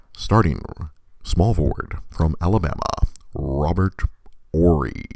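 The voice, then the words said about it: Sports announcer voice impression. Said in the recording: “my impression of the longtime Laker announcer”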